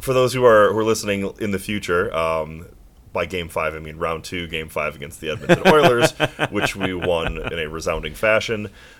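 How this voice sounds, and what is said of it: Slightly hoarse voice. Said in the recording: “A little hoarse. I don't know if you can still hear it, my voice. ... Yeah, a little bit. You've been yelling a lot?”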